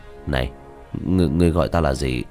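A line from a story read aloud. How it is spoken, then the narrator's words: Trembling lips. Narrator (Vietnamese): Diệp Thiếu Dương, khóe miệng run rẩy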